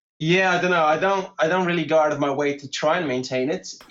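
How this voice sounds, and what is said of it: English accent. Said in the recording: “given that you've actually taken the accent ... I've kind of been picking up the the, the accent since a child ... you've maintained some of yours”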